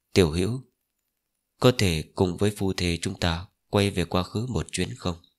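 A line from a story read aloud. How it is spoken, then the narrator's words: Soft echoing murmur. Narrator (Vietnamese): Cơ quan thiếu chủ khẽ lẩm bẩm, âm thanh rơi vào hư vô, vang vọng ở bên tai Linh Phượng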